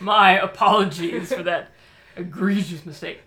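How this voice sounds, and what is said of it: Usual voice. Nothing is said of it.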